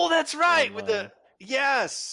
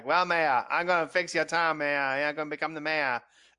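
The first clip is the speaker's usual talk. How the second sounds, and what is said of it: Imitates a character's weird accent. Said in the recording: “That weird accent”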